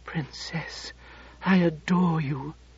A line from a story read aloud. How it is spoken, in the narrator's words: he whispered